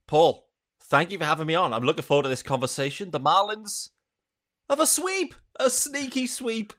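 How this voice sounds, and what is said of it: British accent. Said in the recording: “where is that accent from? That is not a South Florida accent. ... I'm based over in the UK”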